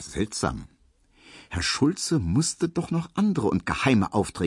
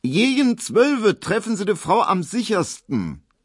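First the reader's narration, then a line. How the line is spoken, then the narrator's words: Loud. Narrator (German): sie sagte so laut, dass es Emil Kubinke hören musste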